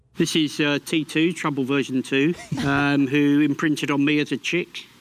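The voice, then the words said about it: British accent. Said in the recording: “that's so British, it hurts. ... I love his accent.”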